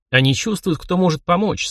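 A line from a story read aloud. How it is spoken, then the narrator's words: Calm. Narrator (Russian): спокойно ответил я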